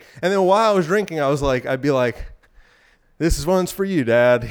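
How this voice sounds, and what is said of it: Out of breath, breathy speech. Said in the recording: “I'm pretty sweaty. I'm kind of out of breath.”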